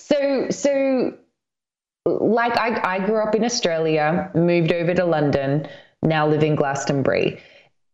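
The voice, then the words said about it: Australian accent with slight English tinge. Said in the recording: “have an Australian accent ... I've developed a little bit of an English accent”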